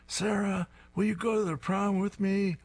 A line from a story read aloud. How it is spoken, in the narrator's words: He screams